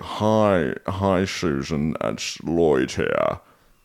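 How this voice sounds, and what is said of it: Poor impression, gremlin-like voice. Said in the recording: “I can't really do an impression ... not even a good impression. Sounds more like the Gremlins off Gremlins 2 that can talk.”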